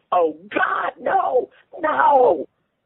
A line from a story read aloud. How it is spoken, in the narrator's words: When Gus saw his miniature penis, he screamed